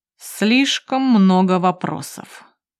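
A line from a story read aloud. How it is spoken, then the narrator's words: Cold. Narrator (Russian): произносит холодно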